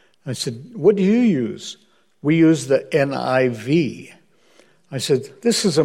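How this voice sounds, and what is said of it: Usual voice. Nothing is said of it.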